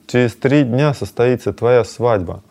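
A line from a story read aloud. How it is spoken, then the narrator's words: Plain. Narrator (Russian): ответил Мадхава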